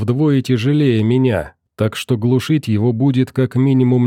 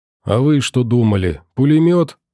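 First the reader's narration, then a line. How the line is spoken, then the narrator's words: Prisoner grumbling. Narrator (Russian): проворчал пленный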